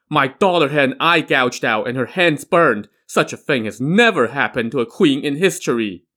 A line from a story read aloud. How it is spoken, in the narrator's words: wailed